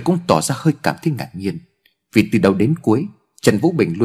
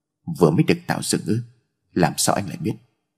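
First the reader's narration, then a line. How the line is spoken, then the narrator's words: Cold. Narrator (Vietnamese): Trần Vũ Bình lạnh lùng nói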